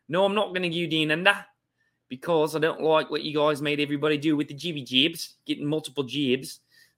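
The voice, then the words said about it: Put-on Australian accent. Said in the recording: “That's a pretty good uh, Australian accent.”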